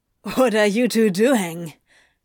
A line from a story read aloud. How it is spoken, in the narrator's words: Crowley barked, hitting his limit